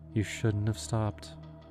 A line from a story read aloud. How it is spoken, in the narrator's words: she said softly, almost regretfully